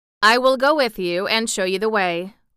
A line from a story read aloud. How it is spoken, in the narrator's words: replied the Emperor